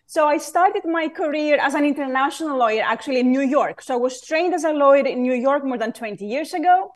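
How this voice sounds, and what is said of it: Greek accent. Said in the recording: “my Greek accent”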